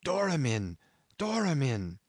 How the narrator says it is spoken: He had just breath enough to gasp out

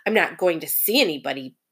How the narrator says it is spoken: Bert Brisbane growled

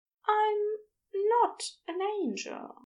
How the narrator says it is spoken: he said softly

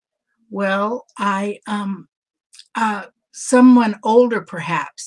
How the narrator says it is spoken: stammered

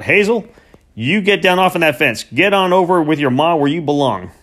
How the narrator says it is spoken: Bent shout

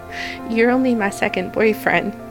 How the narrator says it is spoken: she chuckled

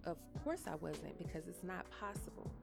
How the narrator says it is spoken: I snapped

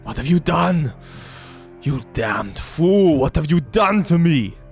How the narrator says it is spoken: he cries out

